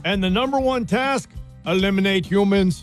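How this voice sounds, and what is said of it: Robot voice impersonation. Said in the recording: “my robot impersonation ... It was okay.”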